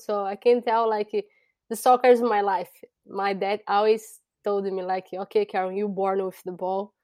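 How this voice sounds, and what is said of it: Brazilian accent. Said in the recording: “who is this young lady with an accent? ... I'm from Brazil”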